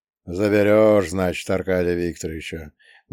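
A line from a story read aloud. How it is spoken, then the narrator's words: Sad question. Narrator (Russian): грустно спросил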